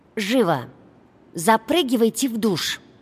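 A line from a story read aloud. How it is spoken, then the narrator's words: Angry groaning. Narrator (Russian): прокряхтела сердито она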